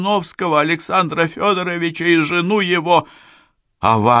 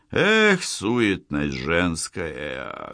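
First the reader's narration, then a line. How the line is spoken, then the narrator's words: Sorrowful sigh. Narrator (Russian): горестно вздохнул Аркадий Петрович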